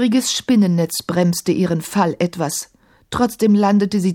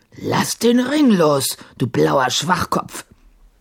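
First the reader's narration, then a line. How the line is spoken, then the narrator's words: Growled. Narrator (German): knurrte Sahim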